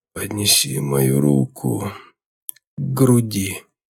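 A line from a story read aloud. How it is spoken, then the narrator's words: Hoarse wheeze. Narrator (Russian): просипел контрразведчик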